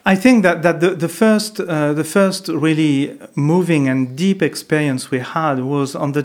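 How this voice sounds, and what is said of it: French accent. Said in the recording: “yes, I have still a French accent”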